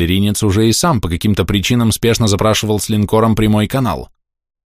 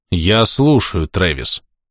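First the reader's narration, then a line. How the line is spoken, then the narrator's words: Through gritted teeth. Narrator (Russian): процедил я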